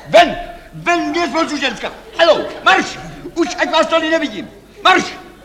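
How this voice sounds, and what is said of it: Shouting angrily. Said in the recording (Czech): “Nekřičte.”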